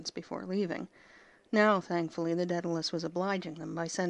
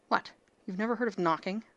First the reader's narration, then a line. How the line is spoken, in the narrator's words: Rodney snapped